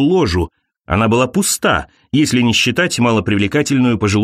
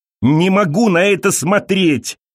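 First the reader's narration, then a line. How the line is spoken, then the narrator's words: Shouting. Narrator (Russian): закричала Элиза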